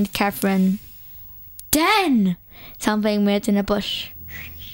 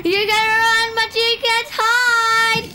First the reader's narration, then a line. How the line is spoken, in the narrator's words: the deranged voice yelled